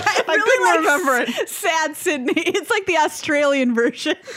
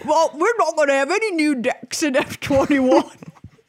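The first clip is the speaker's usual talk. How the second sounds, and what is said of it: Mumbled mock Australian-Cockney accent. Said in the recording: “That was a really offensive Australian accent ... That was more like Cockney. Somebody speaking in a Cockney accent who had just eaten an entire salted nut roll ... they had like an entire bag's worth of chips, like a Famous Amos in their mouth”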